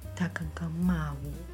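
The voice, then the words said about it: Very quiet, timid voice. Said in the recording (Chinese): “小小声、很怯弱的跟我说”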